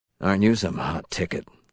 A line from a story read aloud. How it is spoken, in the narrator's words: Hall muttered